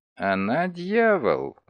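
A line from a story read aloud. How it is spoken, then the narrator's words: Muttered through gritted teeth. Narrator (Russian): процедил он сквозь зубы по-французски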